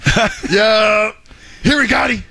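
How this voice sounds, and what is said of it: Impression of Dak. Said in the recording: “your Dak impersonation”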